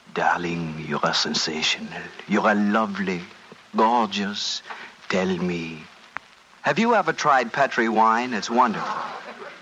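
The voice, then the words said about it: Whispered put-on French accent. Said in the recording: “whispering in my fine French accent”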